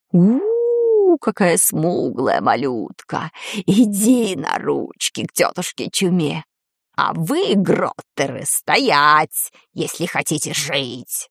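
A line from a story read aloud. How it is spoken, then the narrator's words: Hoarse rasp. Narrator (Russian): прохрипел кто-то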